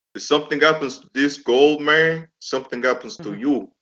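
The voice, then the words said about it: Imitates another person's voice. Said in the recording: “That's my Razor Ramon impression. ... Yes, that's good.”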